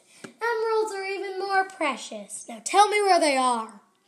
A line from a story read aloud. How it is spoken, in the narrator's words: yelled